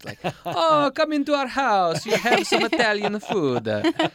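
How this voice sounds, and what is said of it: Put-on Italian accent. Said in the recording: “my version of an Italian accent.”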